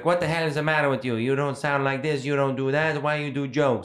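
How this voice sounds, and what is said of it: Grandmother voice, not Italian-sounding. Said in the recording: “I used to do my nonna's actual accent, yeah, which doesn't sound Italian at all ... it's not Italian at all ... that's exactly how she sounds ... I sound like some weird 60s like news anchor”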